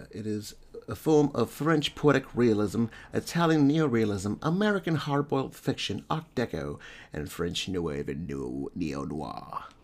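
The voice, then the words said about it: Put-on posh accent. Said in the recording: “That's my posh douchebag accent, but let me go back to my normal voice.”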